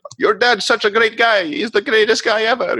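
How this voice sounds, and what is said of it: Badly done put-on accent. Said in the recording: “Bad accent there”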